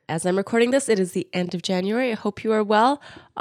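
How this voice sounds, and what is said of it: Congested voice from a cold. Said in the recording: “I still have a cold. You can probably hear it in my voice.”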